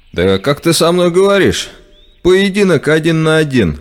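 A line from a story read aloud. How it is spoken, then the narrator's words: Shouted. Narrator (Russian): выкрикнул игрок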